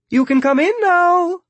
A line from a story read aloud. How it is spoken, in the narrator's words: Roberta says cheerfully